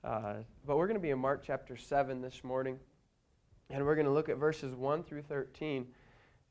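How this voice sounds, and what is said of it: Strained, worn-out voice. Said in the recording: “assuming my voice holds up ... I apologize for my voice this morning. I'm just happy that I have one.”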